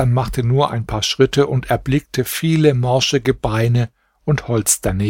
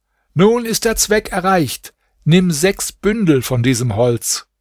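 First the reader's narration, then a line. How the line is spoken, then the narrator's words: Magician calling upward. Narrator (German): Der Magier aber rief hinauf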